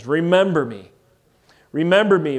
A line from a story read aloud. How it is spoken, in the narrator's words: he cries